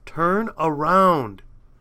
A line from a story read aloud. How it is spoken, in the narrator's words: she screamed